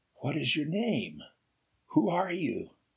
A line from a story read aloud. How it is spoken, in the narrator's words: Ray spoke kindly